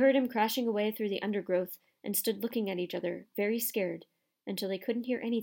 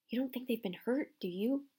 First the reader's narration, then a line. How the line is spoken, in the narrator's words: whispered Hermione